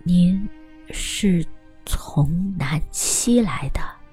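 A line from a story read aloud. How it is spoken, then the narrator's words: Slow repetition. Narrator (Chinese): 他慢吞吞的跟着说了一遍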